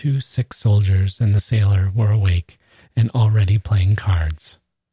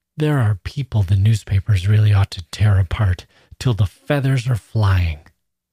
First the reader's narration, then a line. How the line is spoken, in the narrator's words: He frowned contemptuously and gasped out